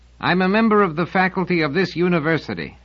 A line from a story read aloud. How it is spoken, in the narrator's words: said Selden, equally loudly